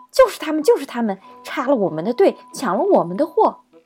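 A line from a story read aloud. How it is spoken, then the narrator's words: Loud angry roar. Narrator (Chinese): 突然听见一声巨大的怒吼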